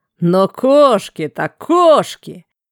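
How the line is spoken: Booming laughter. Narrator (Russian): Эгон раскатисто захохотал

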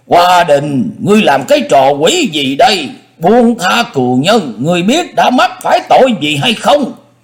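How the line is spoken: Angry, loud. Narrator (Vietnamese): lão nhất thời nổi đóa lên, lớn tiếng nói

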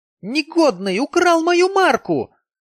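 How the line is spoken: Shouting. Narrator (Russian): закричала она

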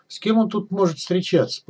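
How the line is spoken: Mutter. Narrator (Russian): пробормотал он

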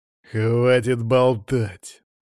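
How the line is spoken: Through gritted teeth. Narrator (Russian): процедил Константин

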